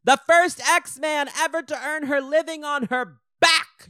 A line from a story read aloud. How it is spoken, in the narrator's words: she shouts again to Cyclops